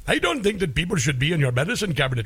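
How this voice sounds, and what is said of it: Put-on Indian accent. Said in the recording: “Why doesn't she just break into an Indian accent?”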